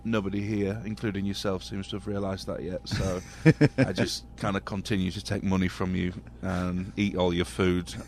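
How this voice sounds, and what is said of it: English accent. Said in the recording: “with an English accent ... He's from England ... the chicks dig the accent?”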